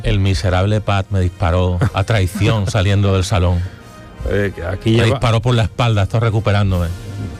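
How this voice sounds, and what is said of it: Sepulchral voice from beyond grave. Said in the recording (Spanish): “esa voz de ultratumba”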